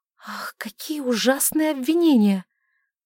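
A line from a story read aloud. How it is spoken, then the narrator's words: Breathed out. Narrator (Russian): выдохнула она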